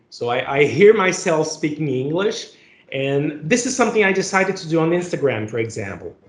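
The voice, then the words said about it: Brazilian accent speaking English. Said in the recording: “everybody has their own accent, and my accent is part of my identity ... I'm from Brazil”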